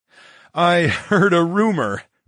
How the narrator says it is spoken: chuckled

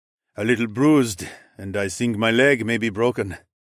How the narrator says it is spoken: Rahil grunted

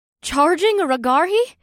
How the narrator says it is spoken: Rikuri gasped

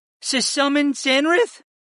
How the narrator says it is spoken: Murr stammered as his dark brown eyes shot open

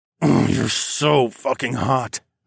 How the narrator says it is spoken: I growled

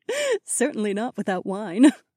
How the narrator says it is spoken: Aliona giggled

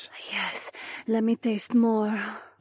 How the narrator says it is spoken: Isabella whispered

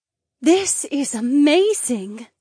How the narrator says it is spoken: the mermaid breathed

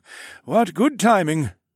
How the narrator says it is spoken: Zare chuckled

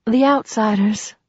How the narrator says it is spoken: breathed reverently

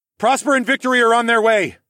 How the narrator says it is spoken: I shouted ahead at Horace

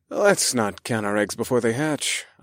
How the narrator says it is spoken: I sighed

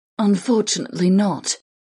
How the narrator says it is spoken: Zan sighed

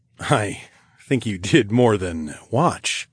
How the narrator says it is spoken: I chuckled

